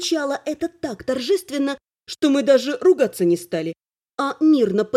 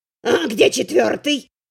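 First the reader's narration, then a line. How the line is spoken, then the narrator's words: Hissed. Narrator (Russian): прошипел Буздюк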